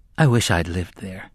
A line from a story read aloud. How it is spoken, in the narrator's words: Jake said wistfully